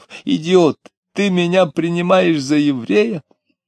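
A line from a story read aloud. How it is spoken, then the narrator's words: Short laugh, shout. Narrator (Russian): И вдруг коротко засмеялся, крикнув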